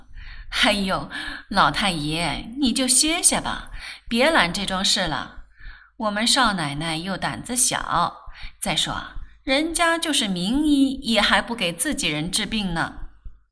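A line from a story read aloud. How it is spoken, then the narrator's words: Laughing. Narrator (Chinese): 沈太太笑道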